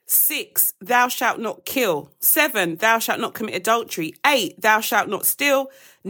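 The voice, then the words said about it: Very fast speech. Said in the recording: “I said that really quickly”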